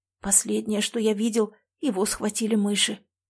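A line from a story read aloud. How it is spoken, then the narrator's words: Young man mumbling. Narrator (Russian): пробормотал парень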